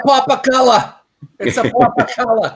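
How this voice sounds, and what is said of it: Imitates another person's accent. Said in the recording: “That accent's beautiful. ... that accent that you're doing”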